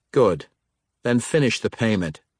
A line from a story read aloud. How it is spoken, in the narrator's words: said Xerath